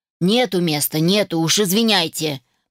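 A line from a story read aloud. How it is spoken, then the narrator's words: Grumbling man. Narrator (Russian): пробурчал мужчина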